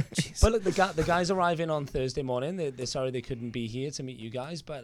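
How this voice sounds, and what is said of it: British accent. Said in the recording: “I'm not Australian. I'm actually from the UK. ... I was going to say that accent.”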